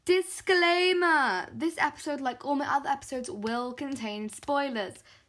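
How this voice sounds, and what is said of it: British accent. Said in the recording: “spoilers will be spoiled with my British accent”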